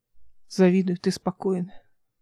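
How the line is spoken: Sighing. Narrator (Russian): вздохнул Алик

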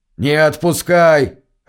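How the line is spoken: Bark. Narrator (Russian): рявкнул Чейн

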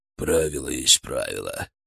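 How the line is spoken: Mutter. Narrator (Russian): пробурчал я

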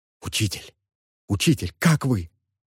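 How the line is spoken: Whisper. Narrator (Russian): шептал Ал

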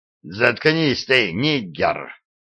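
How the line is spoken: Angry growl. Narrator (Russian): злобно прорычал Ролло

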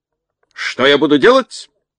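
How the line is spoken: Hoarse bass commander. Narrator (Russian): хрипло пробасил полководец

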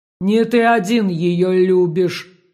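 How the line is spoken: Fire grumbling. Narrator (Russian): проворчал огонь

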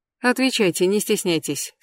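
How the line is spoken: Plain. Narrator (Russian): сказала Кэс

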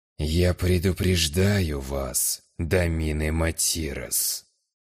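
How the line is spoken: Menacing low growl. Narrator (Russian): угрожающе низким голосом прорычал глава Атерна

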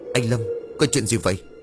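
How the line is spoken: Confused stammering. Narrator (Vietnamese): Tùng vẫn hoang mang lắm, anh ta lắp bắp

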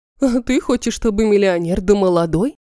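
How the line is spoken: Snorting. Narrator (Russian): фыркнула Светлана Михайловна

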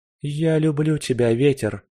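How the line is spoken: Bitter whisper, cracked lips. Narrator (Russian): горько шептали потрескавшиеся искусанные губы

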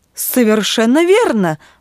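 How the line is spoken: Exclaimed. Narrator (Russian): воскликнул отец

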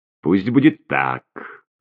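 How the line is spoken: Irritated remark. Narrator (Russian): раздраженно заметила Марианна

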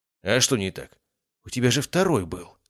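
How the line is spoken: Ingratiating, insinuating. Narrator (Russian): вкрадчиво начал Василий

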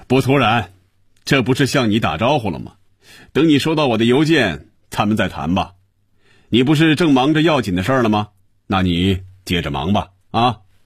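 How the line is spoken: Satisfied, laughing. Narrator (Chinese): 余威感觉舒服、满足、痛快，他笑着说

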